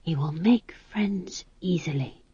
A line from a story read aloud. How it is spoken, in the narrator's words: she whispered